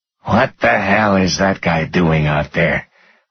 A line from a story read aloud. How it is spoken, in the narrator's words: Hobie muttered